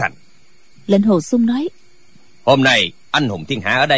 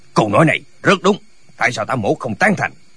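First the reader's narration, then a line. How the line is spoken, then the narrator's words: Cold speech. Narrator (Vietnamese): Ta Lãnh Thiền lạnh lùng nói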